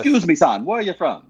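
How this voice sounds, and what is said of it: Put-on Trinidadian-style Caribbean accent. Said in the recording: “That was more of a Trinidadian and Tobago kind of accent, but it's close.”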